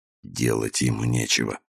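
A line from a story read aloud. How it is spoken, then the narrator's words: Muttering man. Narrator (Russian): пробормотал колумбиец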